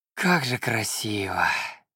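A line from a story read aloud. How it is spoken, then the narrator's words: Breathless admiration. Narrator (Russian): выдохнул я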